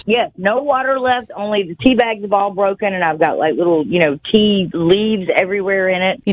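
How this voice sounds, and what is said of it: Speaks with a pleasant regional accent. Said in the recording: “your lovely accent”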